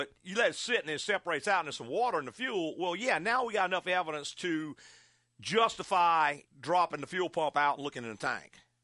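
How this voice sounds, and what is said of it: Southern American accent. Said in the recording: “the ... with a Southern accent”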